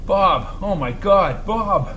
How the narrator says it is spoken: he stammered

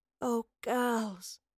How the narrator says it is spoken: the professor sighed

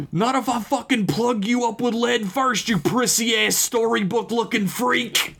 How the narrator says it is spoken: I screamed

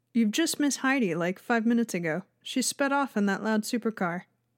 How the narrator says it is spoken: said

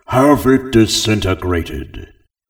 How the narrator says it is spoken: Upset, he didn't care and roared

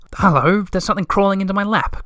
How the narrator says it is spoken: cried Little Mai surprisedly

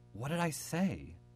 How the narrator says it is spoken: sighed

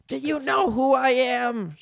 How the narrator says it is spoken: shouted the man

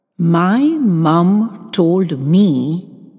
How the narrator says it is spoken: enunciated slowly

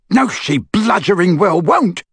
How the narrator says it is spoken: bellowed Amycus

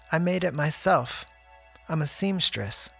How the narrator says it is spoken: she said

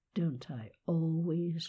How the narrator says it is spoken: muttered Sherry

